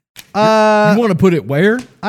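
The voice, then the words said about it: Put-on Texas accent. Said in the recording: “is that your Florida accent? ... Oh, I was doing Texas.”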